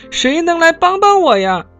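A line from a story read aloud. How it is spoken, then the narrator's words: Breathless shout while running. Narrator (Chinese): 艾米丽边跑边喊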